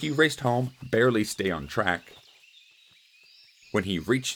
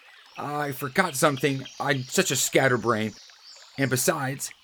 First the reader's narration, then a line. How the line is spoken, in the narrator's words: said desperately